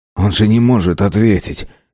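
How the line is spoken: Angry mutter. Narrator (Russian): сердито буркнул Юнц

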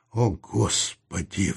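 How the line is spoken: Sigh. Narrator (Russian): вздохнул Саул

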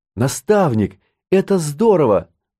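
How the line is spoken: Exclamation. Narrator (Russian): воскликнула Катти

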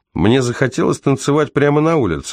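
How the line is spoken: Laughing. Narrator (Russian): он засмеялся

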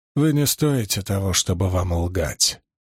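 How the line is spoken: Cold, through gritted teeth. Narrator (Russian): холодно процедил Доусон

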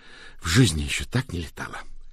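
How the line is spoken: Hoarse sigh. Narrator (Russian): хрипло вздохнула Рэйчел Розен

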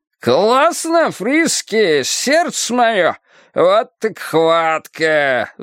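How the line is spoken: Roaring. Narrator (Russian): взревел Коркорон

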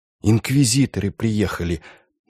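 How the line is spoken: Barely audible. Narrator (Russian): едва слышно проговорила сестра Мария

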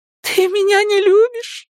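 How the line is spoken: Sobbing. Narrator (Russian): всхлипывая, продолжала она

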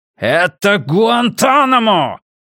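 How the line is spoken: Shouted out. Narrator (Russian): выкрикнул он

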